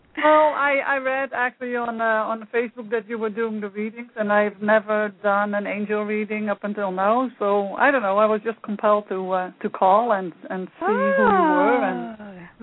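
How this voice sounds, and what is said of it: Dutch accent. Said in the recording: “I like that accent... that's the Dutch accent”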